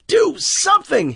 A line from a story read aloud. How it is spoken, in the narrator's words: he screamed